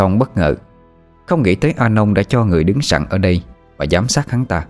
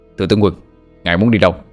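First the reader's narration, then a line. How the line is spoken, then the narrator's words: Soldiers shouting. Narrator (Vietnamese): một toán lính quát lên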